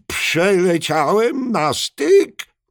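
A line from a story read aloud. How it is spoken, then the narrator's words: Tortoise calling out. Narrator (Polish): zawołał żółw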